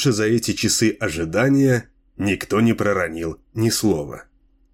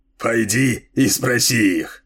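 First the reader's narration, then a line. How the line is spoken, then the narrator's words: Snorting reply. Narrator (Russian): хмыкнул в ответ Дилуло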